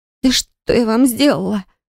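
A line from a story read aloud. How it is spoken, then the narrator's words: Barely audible hoarse rasp. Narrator (Russian): просипела кое-как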